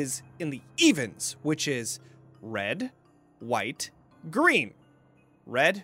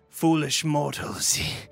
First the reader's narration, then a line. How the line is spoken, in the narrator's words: he growled